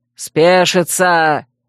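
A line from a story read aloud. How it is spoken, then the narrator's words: Barked. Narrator (Russian): Рявкнул Шранк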